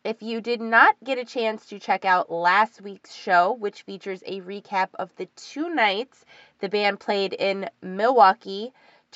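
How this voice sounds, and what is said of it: Scratchy, sick-sounding voice from a cold. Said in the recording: “apologize for my voice, my throat ... I kind of got this little cold thing going on ... scratchy, sick-sounding voice”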